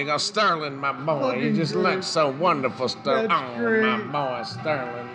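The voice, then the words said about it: Imitates another person's voice. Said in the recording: “My Jim Barnett impression”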